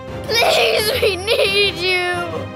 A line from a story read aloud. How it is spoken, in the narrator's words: He sobbed